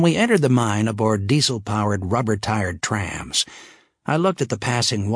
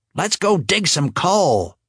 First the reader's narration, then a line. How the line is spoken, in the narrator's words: Teresa yelled